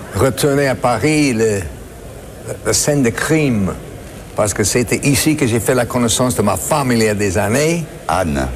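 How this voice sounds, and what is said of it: Non-native accent speaking French. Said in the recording (French): “il a appris le français ... je vais faire entendre son accent légendaire”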